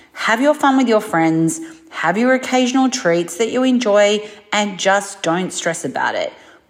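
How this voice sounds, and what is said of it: Australian accent. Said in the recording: “the ... from Down Under ... Just the accent alone”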